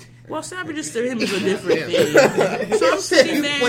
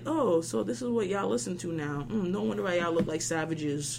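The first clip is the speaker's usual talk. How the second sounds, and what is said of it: Faint Haitian accent imitation. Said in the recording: “my dad has a faint Haitian accent”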